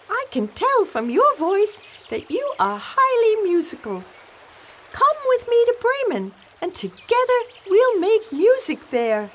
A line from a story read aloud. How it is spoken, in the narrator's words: the donkey exclaimed